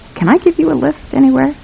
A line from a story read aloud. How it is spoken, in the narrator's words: He tried to keep his voice from quivering when he said